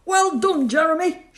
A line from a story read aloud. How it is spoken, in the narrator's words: shouted Stan